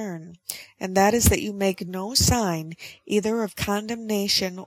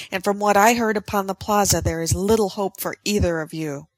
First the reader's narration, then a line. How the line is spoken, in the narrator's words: cried